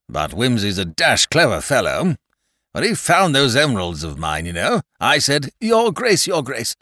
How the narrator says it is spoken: cried Rouge Dragon desperately

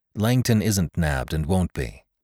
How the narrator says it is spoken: I said, coolly enough

